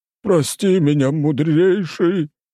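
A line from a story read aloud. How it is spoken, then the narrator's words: Whining again, fat man. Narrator (Russian): снова заскулил толстяк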